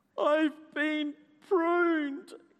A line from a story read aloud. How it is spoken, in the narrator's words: groaned Basil